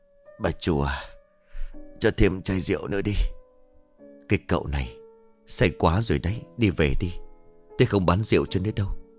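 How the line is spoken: Forced smile, mumbling. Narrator (Vietnamese): Lâm nụ cười gượng gạo rồi miệng lẩm bẩm

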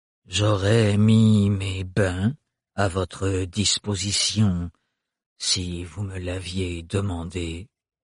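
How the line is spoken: Drawling voice. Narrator (French): dit Farouk d'une voix traînante

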